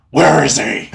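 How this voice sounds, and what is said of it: Strained Batman character voice. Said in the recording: “your best Batman accent ... I'm gonna destroy my throat doing this ... That was like, really good.”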